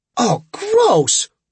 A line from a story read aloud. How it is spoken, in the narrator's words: Tripp exclaimed as something hit him